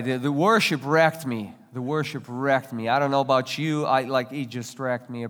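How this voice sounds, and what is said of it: Russian accent, slightly congested voice. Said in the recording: “you can hear an accent because I wasn't born here ... I was under the weather last week, so my accent is not only Russian, it's a little bit of French today”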